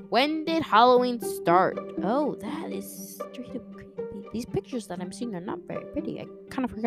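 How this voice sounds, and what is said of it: Usual voice. Nothing is said of it.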